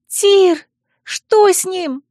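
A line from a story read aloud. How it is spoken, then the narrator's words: Sharp cry. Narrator (Russian): вскрикнула Миле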